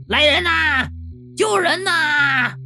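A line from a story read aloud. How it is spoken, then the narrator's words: Loud urgent shout. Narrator (Chinese): 马上就高声喊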